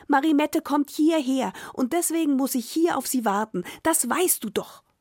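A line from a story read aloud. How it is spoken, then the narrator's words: White-haired man calling. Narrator (German): rief der Weißhaarige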